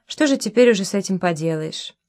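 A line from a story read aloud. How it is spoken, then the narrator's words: Calm, understanding, unreproachful. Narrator (Russian): сказала неукоризненно и неравнодушно, как-то именно спокойно и понимающе сказала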